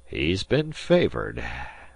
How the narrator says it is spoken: said Disko dryly

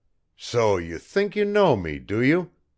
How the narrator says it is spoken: he snarled

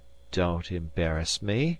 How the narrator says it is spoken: murmured Amory

